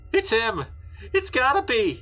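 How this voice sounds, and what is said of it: Wavering, frightened voice. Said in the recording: “Anthony said in a wavering voice.”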